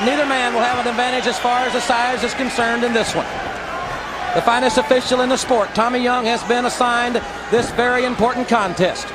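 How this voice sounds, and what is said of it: Strong Southern American accent. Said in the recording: “Sounds sure like sounds a like really a really southern accent.”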